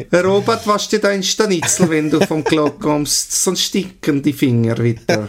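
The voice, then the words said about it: Light put-on Swiss German accent. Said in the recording (German): “So ein leichter Schweizer Akzent”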